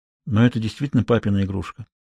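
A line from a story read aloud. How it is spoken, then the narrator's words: Quiet. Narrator (Russian): Хьюго поднял глаза и тихо произнес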